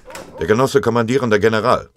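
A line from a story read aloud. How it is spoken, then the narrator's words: Called out. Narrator (German): Der diensthabende Ordonnanzoffizier rief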